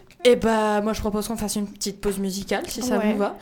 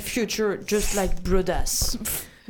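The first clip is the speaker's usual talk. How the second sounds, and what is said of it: Put-on English accent. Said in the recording (French): “mon super accent anglais”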